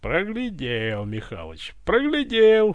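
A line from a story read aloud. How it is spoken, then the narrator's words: Pleased laughter. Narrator (Russian): захохотал довольный Иван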